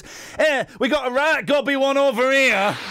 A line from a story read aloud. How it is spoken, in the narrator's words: Imagine a lady shouted to the bouncers